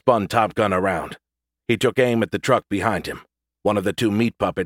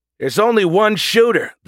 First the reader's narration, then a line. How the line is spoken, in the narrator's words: the jitman yelled